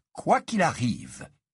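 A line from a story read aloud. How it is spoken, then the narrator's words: Grave repetition. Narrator (French): répéta Dumbledore d'un ton grave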